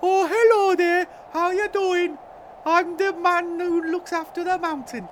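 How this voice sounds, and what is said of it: Cartoon character voice. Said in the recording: “Please don't do that voice. ... It's the voice from some TV show. ... It's the animated TV show.”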